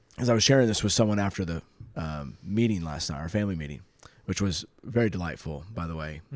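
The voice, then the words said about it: Rough, gravelly worn-out voice. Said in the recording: “sorry for my voice, y'all. It's getting progressively worse... You're gargling gravel.”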